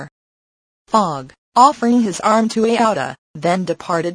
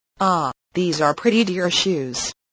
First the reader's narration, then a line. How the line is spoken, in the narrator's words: he muttered